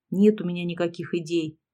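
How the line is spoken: Old woman grumbling. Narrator (Russian): буркнула старуха

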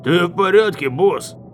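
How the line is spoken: Guard's shout. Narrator (Russian): крикнул один из охранников

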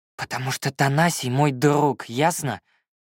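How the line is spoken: Exhaled after long pause. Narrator (Russian): выдохнул он долгие полминуты спустя

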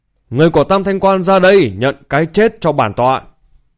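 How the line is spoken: Piercing shout. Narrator (Vietnamese): quát chói tai

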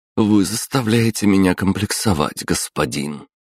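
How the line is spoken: Heavy sigh. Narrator (Russian): тяжело вздохнув, произнесла она

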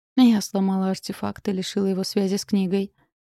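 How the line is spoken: Sighing. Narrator (Russian): вздохнула

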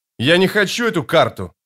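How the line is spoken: Barked. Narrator (Russian): рявкнул Паран

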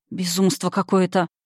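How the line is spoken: Muttered. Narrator (Russian): пробормотала я

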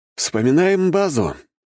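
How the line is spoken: Wry snort. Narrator (Russian): хмыкнул я

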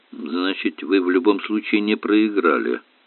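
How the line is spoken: Muttered. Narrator (Russian): пробормотал Квин

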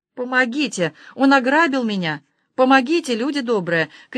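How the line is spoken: Woman screaming, sobbing. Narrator (Russian): кричала женщина, заливаясь слезами

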